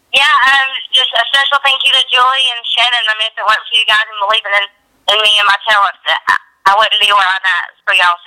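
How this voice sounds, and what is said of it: Southern American accent. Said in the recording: “I love the Southern accent. ... that Southern charm”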